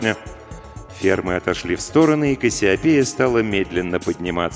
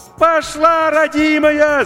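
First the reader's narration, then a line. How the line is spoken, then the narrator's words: Deafening shout over radio. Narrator (Russian): закричал Максим, оглушая радиоканал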